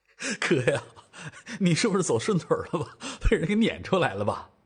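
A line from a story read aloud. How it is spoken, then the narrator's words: Laughing. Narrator (Chinese): 赵正义就笑了起来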